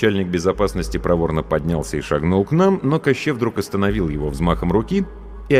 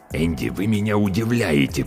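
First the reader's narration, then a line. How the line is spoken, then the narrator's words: Hissing. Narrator (Russian): прошипел он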